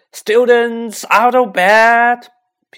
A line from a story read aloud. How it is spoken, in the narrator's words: Peeves bellowed